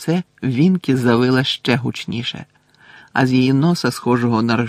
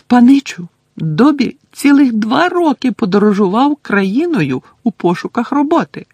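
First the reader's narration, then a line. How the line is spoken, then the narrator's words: Squeaking. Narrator (Ukrainian): запищав Добі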